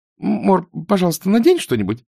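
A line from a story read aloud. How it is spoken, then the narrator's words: Babbling, faltering. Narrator (Russian): пролепетала Изабель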